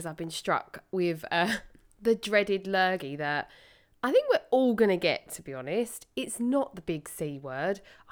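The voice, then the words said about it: Hoarse, sniffly voice. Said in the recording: “you're going to have to excuse my very hoarse voice today and snuffles and sniffles”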